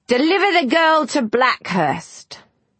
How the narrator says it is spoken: Eliza heard him shout

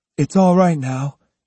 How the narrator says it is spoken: he said soothingly

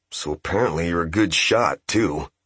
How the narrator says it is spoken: said Seki under his breath to the absent Shosei

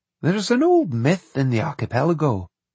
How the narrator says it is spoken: he went on softly

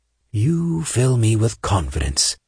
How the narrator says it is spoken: Saint said in a dry voice

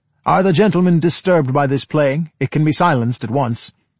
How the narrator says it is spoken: Gregor's father now called out

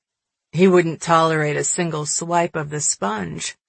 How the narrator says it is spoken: he chuckled

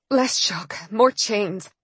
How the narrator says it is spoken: I said wearily

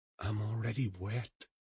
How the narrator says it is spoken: whispered

